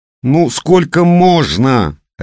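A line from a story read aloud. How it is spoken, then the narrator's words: Barked. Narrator (Russian): рявкнула Настя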